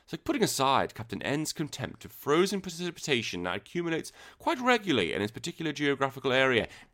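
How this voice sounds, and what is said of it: Put-on posh English accent. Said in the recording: “read this comment aloud with a received accent from recognised form of English ... I can't do a good English accent ... so I can read it like a posh twat”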